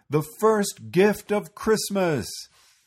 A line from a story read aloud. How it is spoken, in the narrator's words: the elves roared their approval